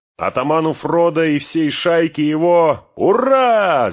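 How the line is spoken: Group shouting. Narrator (Russian): закричали хоббиты

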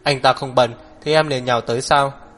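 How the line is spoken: Cold sneering. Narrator (Vietnamese): Hắc Viêm Triệt lạnh lùng kéo khóe miệng lên

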